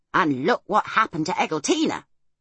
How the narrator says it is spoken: Homily would exclaim

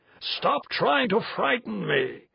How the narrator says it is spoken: he roared again

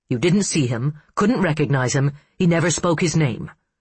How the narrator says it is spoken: he said, his voice growing louder with every syllable

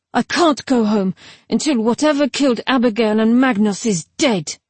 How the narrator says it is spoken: Then, more wildly

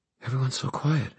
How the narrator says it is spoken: Emma said, whispering herself

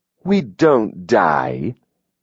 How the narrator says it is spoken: Adam sneered

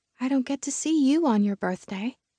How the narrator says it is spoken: she said in a small voice

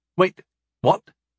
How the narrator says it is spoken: I asked sharply

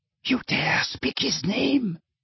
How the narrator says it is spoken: whispered Bellatrix

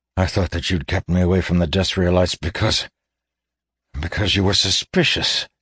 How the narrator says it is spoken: he admitted faintly

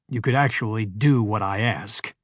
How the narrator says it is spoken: snarled Jamie

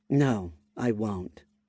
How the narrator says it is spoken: responded, before her tone softened

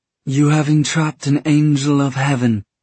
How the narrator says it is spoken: Tessa said, though it was not her voice speaking but Ethereal speaking through her

